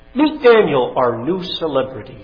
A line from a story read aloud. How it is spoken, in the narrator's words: says Belshazzar